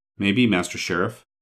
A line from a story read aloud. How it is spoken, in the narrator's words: said the man dryly